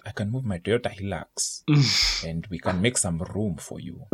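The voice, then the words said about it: Put-on Luo accent. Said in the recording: “let me try do it in the Luo accent ... I don't know if I did it correctly ... I think that was pretty good”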